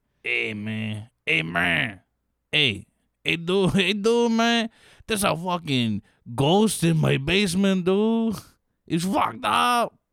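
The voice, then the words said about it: Put-on old Floridian Jewish accent. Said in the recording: “Floridian, old Jew.”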